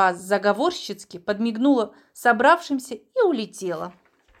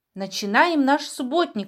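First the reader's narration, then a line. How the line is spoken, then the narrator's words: Joyful. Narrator (Russian): радостно сказал Колобок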